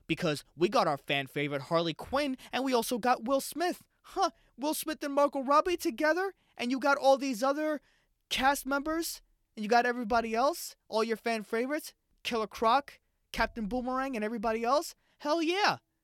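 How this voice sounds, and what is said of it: High-pitched hyped executive voice. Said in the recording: “my octaves are so high when I'm talking like an executive from Warner Brothers”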